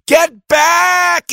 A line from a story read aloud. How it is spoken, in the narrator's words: everyone yelled